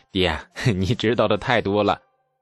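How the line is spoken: Sly triumphant. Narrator (Chinese): 李素露出了得逞的奸笑

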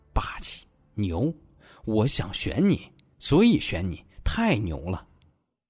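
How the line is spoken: Rambling mumble. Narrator (Chinese): 摇头摆脑 不断嘟囔着

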